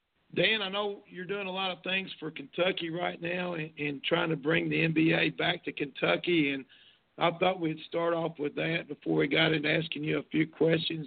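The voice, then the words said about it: Worn, hoarse voice. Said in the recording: “I'm fighting through pneumonia, so my voice is a little bit worn”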